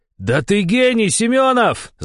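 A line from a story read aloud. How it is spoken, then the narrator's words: Yelling. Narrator (Russian): завопил я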